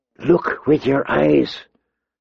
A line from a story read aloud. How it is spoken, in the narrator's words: she heard Sirio whisper